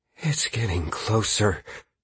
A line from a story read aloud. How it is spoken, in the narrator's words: Caius whispered